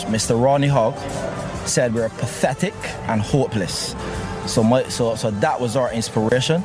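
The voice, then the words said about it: West Indian accent. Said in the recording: “Beautiful accent... I love that West Indian accent.”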